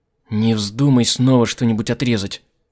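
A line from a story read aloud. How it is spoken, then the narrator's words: Through gritted teeth. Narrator (Russian): процедила Дырхан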